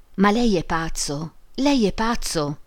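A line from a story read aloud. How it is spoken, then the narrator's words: Exclaiming amid trilling giggles. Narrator (Italian): esclamò Emma fra risatine trillanti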